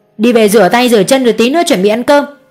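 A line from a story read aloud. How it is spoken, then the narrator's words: Defensive scolding shout. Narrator (Vietnamese): Như bị đuối lý, cô Hường quay lại quát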